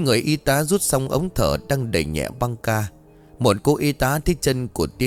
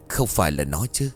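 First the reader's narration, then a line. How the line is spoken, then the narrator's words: Mutter. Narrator (Vietnamese): Tiến lẩm bẩm trong miệng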